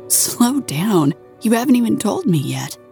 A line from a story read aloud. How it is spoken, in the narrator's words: laughed